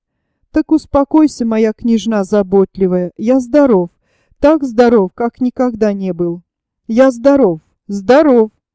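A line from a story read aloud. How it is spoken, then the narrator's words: Wild, frightening laughter. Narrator (Russian): И он дико смеялся, страшно смеялся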